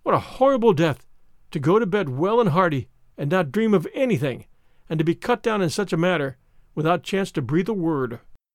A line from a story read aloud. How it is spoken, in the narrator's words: she said, in gasps